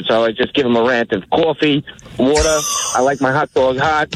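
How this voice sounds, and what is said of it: Strong regional accent. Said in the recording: “people have been busting my chops about my accent out here forever ... give me, like, the five strongest words”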